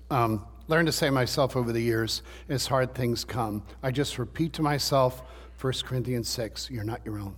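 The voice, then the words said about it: Hoarse, strained voice. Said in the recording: “you can tell I'm losing my voice.”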